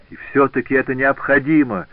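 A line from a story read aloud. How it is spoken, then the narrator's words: Exclamation. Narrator (Russian): воскликнул Жак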